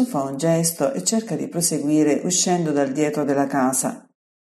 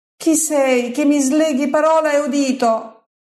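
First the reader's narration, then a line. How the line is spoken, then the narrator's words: Healed man shouting. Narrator (Italian): grida il miracolato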